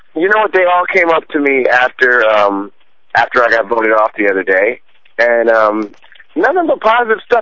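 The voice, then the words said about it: Strained, worn-out voice. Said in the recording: “my voice is going.”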